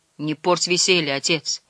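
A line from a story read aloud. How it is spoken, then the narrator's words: Quiet plea. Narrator (Russian): тихо попросил Дэн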